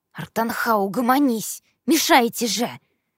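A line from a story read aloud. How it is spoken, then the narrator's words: Hiss. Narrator (Russian): прошипел мой сосед справа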